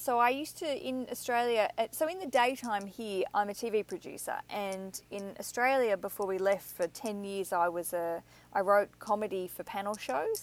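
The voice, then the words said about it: Slightly downplayed accent. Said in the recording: “I hear a bit of like, you know, how's it going? ... slightly downplay the accent. But the accent works for me ... this accent ... with that accent”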